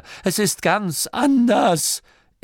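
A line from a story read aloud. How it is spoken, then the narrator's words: Whining priest. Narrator (German): jammerte der Priester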